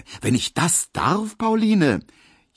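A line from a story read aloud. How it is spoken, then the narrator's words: Called out. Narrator (German): rief Emil Kubinke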